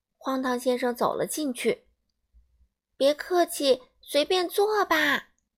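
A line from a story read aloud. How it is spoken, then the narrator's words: Shouting from upstairs. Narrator (Chinese): 一个声音在楼上大叫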